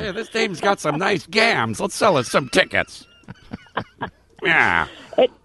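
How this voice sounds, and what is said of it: Gangster voice, Groucho Marx-like. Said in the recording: “gangster voice is coming along really well ... That's like Groucho Marx.”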